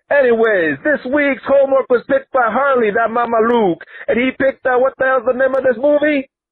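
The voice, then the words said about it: Exaggerated Italian American accent. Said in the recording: “very, very offensive Guido Italian American accent”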